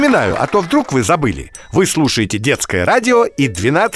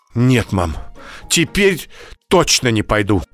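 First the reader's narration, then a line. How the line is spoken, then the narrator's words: Frightened speech. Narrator (Russian): испуганно сказала Даша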